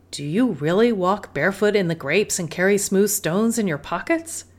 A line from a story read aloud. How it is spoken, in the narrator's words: Abuelita laughed